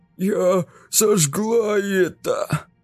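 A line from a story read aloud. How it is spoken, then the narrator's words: Hoarse wheeze. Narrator (Russian): просипела Каролина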